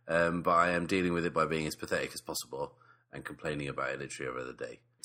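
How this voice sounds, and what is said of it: Deeper, husky voice from a cold. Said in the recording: “malingering man flu type episode ... my voice is a little deeper than normal ... it makes it a little huskier”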